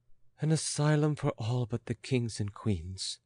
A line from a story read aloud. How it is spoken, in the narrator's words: muttered Marie Antoinette